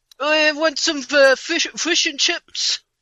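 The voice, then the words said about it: Put-on New Zealand accent. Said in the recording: “I can do a good New Zealander.”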